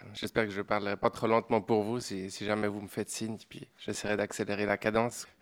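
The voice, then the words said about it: Swiss French accent. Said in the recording (French): “Comme vous l'entendez, je viens d'une autre contrée, hein, mon petit accent suisse.”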